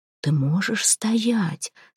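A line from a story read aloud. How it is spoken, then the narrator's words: Quiet. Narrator (Russian): спросил Калакир негромко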